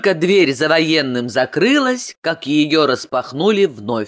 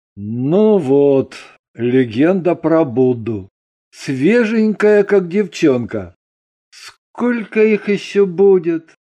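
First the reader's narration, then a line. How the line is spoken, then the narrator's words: Heavy sighing question. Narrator (Russian): Ганин тяжко вздохнул и спросил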